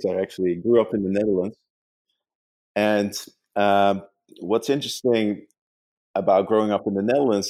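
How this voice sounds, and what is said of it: Dutch accent. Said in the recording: “as you can probably tell from my accent, I'm not from the United States.”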